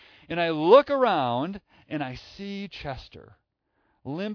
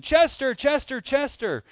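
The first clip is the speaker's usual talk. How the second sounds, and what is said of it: Yelling a name, searching tone. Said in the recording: “I'm yelling ... my Chester changed, right? It went from a searching Chester to a found Chester”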